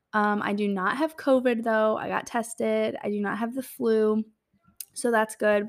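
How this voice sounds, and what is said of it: Sick-sounding voice, sore throat. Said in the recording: “I sound a little sick ... sore throat”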